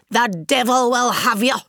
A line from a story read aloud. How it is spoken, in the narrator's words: she shouted